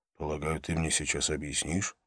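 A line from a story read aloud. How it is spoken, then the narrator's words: Whisper. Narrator (Russian): шепнул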